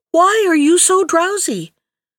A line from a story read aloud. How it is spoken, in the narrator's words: cried the princess